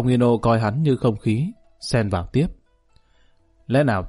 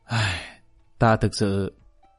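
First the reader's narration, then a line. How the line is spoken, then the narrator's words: Helpless sigh. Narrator (Vietnamese): Lý Kỳ thật không biết nói gì, thở dài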